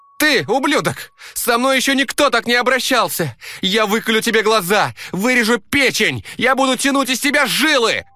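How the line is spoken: Shrill female voice. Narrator (Russian): голос такой женский, визгливый, стопудово из микрокредитной организации

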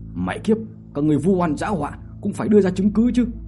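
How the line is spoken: Angry scolding. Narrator (Vietnamese): Trần Khiếu Hổ ở bên cạnh giận dữ mà mắng

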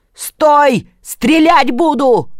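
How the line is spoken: Startled loud shout. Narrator (Russian): От неожиданности Илья закричал громче всех

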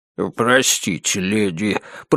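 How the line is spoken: Muttered. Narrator (Russian): пробормотал он

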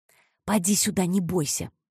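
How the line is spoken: Nurse whispering. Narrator (Russian): шепотом сказала операционная сестра

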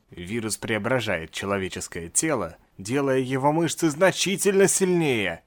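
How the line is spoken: Muttered. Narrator (Russian): пробормотал доктор

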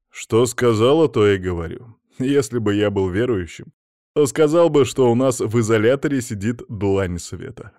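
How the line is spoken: Man bursting into laughter. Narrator (Russian): расхохотался мужчина

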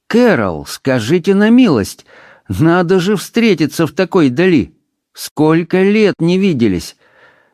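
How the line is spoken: Surprised male exclamation. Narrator (Russian): мужчина удивленно воскликнул

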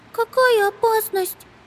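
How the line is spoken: Squeak. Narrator (Russian): пискнула Амелия

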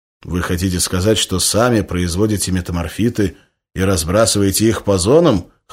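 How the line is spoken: Skeptical snort. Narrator (Russian): хмыкнул Березов

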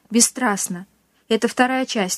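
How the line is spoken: Sighing again. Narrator (Russian): снова вздохнул русский

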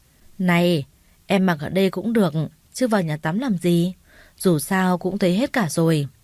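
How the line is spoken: Laughing, teasing. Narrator (Vietnamese): Trường cười lớn rồi lên tiếng

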